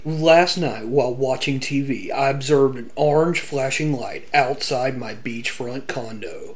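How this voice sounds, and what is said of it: Dramatic movie trailer voice. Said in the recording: “you sound like you're like a trailer voice for movies. In a world.”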